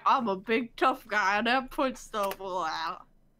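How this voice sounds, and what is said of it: Cartoon character impression. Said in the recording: “That was a great impression.”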